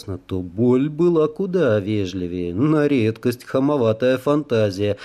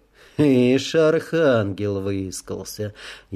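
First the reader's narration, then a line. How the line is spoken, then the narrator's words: Sarcastic, rising to thunderous. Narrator (Russian): язвительно заметил он, и неожиданно возвысился до громового крещенда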